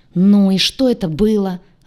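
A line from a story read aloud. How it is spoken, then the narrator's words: Growling. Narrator (Russian): рыкнул Селарс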